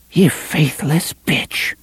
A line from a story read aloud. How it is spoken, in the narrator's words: Cordelia whispered